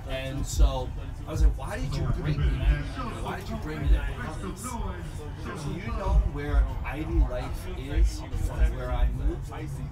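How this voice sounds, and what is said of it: Slight New York accent. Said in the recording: “I'm originally from Jersey and New York, Brooklyn, New York... I hear the accent... A little bit”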